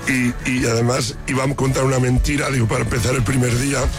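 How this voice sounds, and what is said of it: Hoarse, nearly lost voice. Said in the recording (Spanish): “esa voz como la tienes ... estoy afónico”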